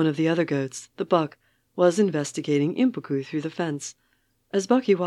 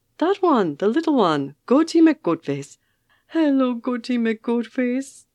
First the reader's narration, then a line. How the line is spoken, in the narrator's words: she cooed